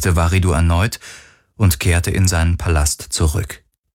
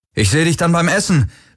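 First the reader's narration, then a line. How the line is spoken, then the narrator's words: Called out. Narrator (German): rief er Kirai zu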